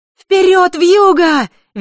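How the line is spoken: Girl's cheerful shout. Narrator (Russian): весело закричала девочка

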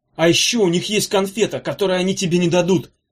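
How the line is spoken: Breathless shout. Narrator (Russian): задыхаясь, выкрикнул Эдя

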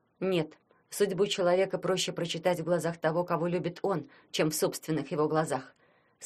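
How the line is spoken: Calm. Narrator (Russian): спокойно отвечала Ленка

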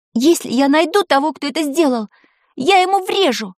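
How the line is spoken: Furious shout. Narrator (Russian): в ярости крикнула Таня

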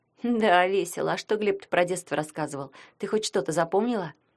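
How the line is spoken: Plain. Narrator (Russian): спросила Ритка

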